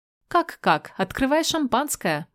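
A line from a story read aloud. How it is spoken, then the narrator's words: Cheerful singsong. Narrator (Russian): бодро пропиваю я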